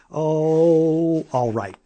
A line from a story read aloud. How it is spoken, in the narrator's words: said her mother